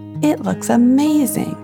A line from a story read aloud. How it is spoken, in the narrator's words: Anora exclaimed